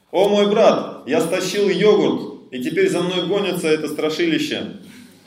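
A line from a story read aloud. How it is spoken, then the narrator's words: Shouting. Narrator (Russian): Балдеви кричал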